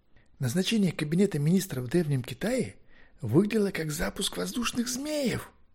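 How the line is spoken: Fervent whisper. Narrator (Russian): горячо зашептал он

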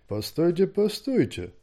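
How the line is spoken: Unenthusiastic mumble. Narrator (Russian): Без большого энтузиазма промямлил лорд Бласид Бладхаунд

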